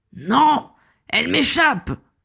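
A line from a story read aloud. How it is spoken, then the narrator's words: Roared. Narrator (French): rugit-il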